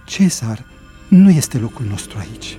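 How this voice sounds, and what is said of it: Terrified whisper. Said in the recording (Romanian): “șopti îngrozită”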